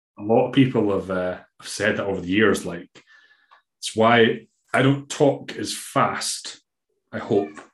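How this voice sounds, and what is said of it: Scottish accent. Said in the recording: “how to understand a Scottish accent. Because I couldn't understand a word you said to begin with ... man, she's got a weird accent. But then I've got a weird accent ... Your accent's way weirder.”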